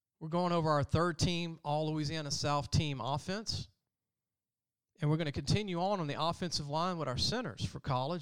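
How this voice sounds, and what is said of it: Hoarse, strained voice. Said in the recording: “Kind of losing my voice.”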